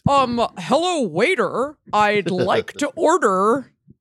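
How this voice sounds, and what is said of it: British speaker faking an American accent. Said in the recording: “a British person pretending to be American accent”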